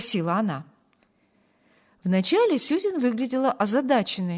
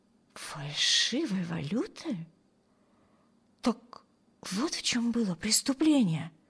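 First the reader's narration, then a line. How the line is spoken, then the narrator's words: Muttering to herself. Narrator (Russian): пробормотала Эми себе под нос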